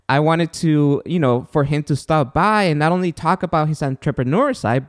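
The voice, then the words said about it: Non-native English accent. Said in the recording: “I have an accent and I'm from another country”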